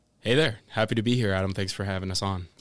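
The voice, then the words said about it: American accent. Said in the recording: “That wasn't David Prentice, you could tell from the accent straight away.”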